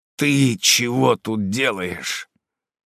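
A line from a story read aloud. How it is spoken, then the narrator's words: Hoarse rasp. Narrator (Russian): я прохрипел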